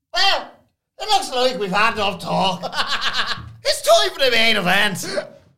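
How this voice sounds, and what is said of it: Irish accent, Kevin Patrick impression. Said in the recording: “Can you do Kevin Patrick doing Mark Henry? Just the Irish accent.”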